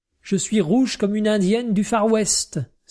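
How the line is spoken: Exclaimed. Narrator (French): s'écria Cornelia

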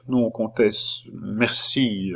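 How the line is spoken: Queen, strained voice. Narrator (French): répondit la reine d'une voix altérée

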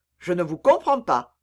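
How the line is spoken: Cold. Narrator (French): dit froidement Aramis

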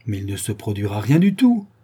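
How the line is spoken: Exclamation. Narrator (French): s'écria Rouxval

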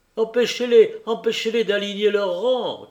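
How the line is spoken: Shouting. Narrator (French): criait le cochevoy

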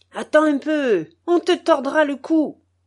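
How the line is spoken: Wife shouting. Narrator (French): lui crie sa femme

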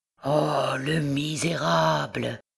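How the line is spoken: Dull murmur. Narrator (French): murmura-t-il sourdement

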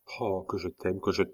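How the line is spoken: Murmured. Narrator (French): murmura Bussy

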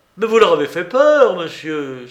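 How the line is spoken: General exclaiming. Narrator (French): s'écria le général

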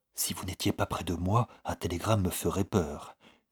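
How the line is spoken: Said softly. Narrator (French): dit-elle tout bas à Rory

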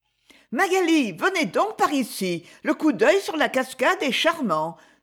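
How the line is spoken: Exclaiming. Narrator (French): s'écria Lady Isabelle

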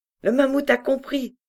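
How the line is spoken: Joyful exclamation. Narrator (French): s'écria Nao avec joie

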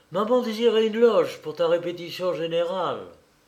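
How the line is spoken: Brisk, quick. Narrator (French): dit Nina vivement

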